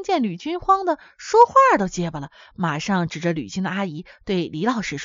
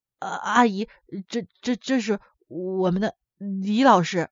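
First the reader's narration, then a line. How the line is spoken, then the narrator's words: Stammering. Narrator (Chinese): 吕寻结结巴巴地说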